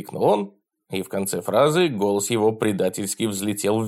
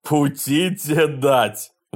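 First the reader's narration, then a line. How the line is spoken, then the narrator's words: Roaring. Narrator (Russian): взревел Васька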